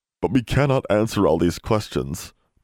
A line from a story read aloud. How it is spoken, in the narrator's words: Poe said mournfully